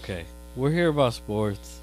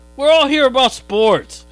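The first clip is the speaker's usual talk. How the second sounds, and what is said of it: Yelling. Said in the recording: “stop yelling. ... He's yelling. ... He's a yeller.”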